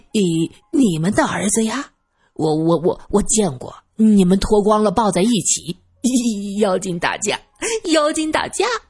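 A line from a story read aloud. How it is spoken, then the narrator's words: Snickering. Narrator (Chinese): 二先生嘿嘿的笑着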